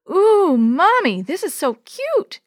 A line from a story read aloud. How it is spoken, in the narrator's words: exclaimed Yo-Yo